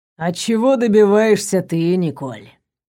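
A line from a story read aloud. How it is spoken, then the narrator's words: Insinuating, slightly husky. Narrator (Russian): Вкрадчиво спросил он, и от звуков чуть хрипловатого голоса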